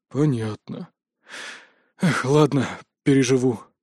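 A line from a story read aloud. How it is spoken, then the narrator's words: Sad sigh. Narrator (Russian): с грустью вздохнул Толик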